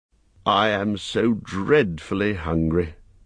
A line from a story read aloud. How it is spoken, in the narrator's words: groaned Bilbo, who was suddenly aware that he had not had a meal since the night before last